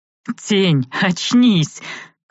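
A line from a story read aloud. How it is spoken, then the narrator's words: Laughing chuckle. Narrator (Russian): хохотнул Ари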